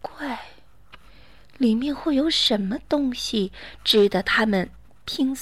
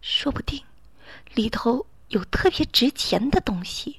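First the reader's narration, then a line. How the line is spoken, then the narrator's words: Quiet. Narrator (Chinese): 妈妈小声的说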